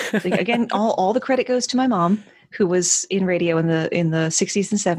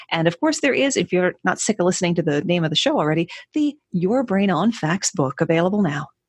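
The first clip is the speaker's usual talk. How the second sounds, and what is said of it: Polished radio announcer voice. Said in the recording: “that was a great radio voice.”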